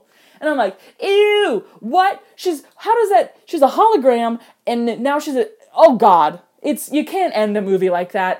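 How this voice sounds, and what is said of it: Yelling, agitated loud voice. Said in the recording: “as you can tell by how I'm yelling about it”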